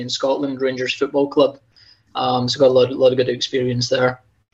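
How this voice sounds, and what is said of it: Slight Scottish accent. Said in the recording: “You still have an accent, just FYI. Just I can hear a little bit of that accent... Just a tad.”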